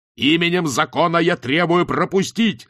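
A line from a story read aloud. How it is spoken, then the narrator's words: Yelling. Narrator (Russian): заорал Ваймс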